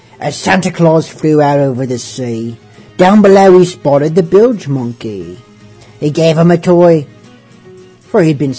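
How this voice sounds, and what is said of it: Pirate voice. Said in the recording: “read it in a somewhat passable pirate voice ... read it in a pirate voice”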